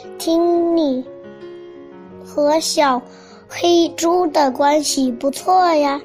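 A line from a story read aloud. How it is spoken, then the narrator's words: Long sighing. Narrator (Chinese): 山羊长长的叹了口气说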